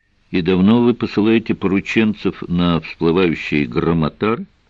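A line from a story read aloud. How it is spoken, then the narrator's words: Plain. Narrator (Russian): спросил Сварог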